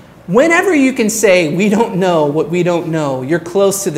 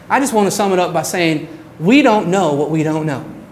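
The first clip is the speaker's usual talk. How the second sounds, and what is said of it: Attempted Southern American accent. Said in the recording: “I'm trying to do a Southern accent.”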